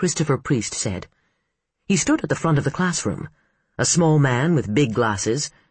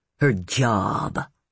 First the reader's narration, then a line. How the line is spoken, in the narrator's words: Tyrell Mann jeered